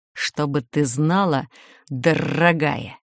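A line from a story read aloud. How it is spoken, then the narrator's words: Sarcastic hiss. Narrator (Russian): Язвительно прошипев, Макс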